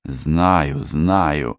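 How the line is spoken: Through gritted teeth. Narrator (Russian): процедил Рыбин

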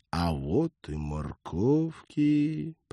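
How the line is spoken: Gloomy. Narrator (Russian): мрачно сказал Роджер

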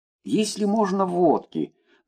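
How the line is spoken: Dazed mumble. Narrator (Russian): пробормотал еще не окончательно пришедший в себя Николай Петрович

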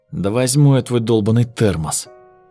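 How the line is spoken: Muttered under breath. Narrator (Russian): под нос буркнула Люся

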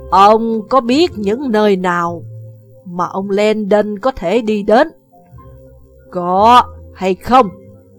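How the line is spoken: Harsh, gritted voice. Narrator (Vietnamese): Bà gằn giọng

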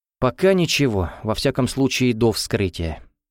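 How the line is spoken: Heavy sigh. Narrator (Russian): тяжело вздохнул Лев Иванович

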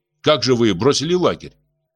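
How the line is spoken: Stern question. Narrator (Russian): почувствовав за собой авторитет райкома, строго спросил

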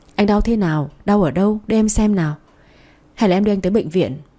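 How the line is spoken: Flustered, anxious questioning. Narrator (Vietnamese): Bà rối rít hỏi

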